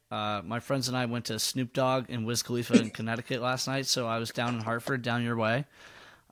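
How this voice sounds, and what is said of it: Gravelly, slightly strained voice. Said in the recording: “My voice might sound a little gravelly today ... recording a podcast after yelling all night is going to be a little bit patchy”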